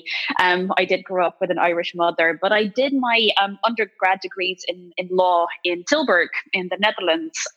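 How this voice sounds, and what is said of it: Irish-tinged accent. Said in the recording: “I've been in Ireland for so long now, and my accent, I think, gives me away.”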